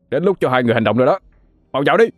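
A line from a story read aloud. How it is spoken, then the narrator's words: Very loud shout. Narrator (Vietnamese): hét thật to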